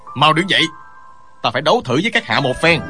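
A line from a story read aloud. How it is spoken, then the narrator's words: Loud shout. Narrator (Vietnamese): quát lớn nói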